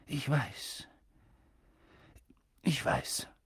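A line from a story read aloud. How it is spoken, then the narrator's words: Husky, choked voice. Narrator (German): sagte er mit belegter Stimme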